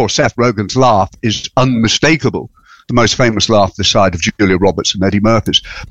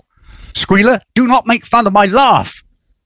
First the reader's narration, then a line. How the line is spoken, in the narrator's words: Napoleon, who snaps